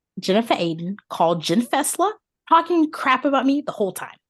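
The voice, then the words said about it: Put-on New Jersey accent. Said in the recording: “watching Real Housewives of New Jersey ... imitating their accents.”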